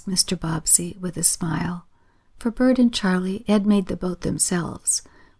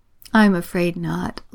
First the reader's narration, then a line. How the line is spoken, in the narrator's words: laughed Mr